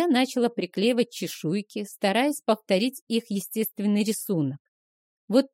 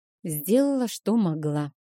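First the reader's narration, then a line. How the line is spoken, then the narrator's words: Sigh. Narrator (Russian): вздохнула я наконец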